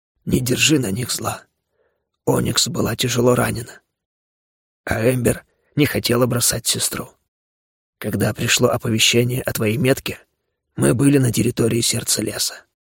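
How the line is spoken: Quiet. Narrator (Russian): он тихо произнес

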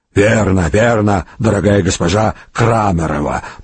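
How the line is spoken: Wheezing croak. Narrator (Russian): прохрипела третья

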